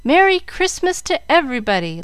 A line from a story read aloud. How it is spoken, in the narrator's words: the children, not knowing whether to laugh or to cry, compromised the matter by clapping their hands and shouting